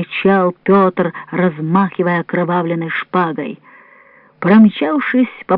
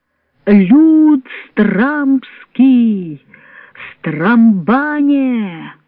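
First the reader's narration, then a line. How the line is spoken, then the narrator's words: Loud, clear exclamation. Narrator (Russian): воскликнул Петр, насколько мог громко и отчетливо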